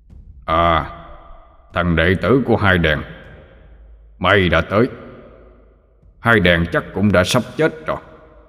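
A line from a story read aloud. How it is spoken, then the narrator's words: Deep booming thunderous voice. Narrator (Vietnamese): Abraham ... giọng ông ta ồm ồm như sấm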